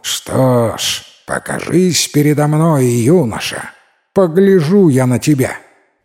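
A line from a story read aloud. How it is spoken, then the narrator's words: Laughing shout, old fox. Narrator (Russian): старый лис захохотал и крикнул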